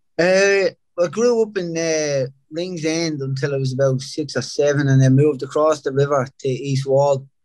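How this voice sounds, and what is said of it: Thick Dublin Irish accent. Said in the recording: “as people can hear, you've got like a way thicker accent than me. So where in Dublin are you from?”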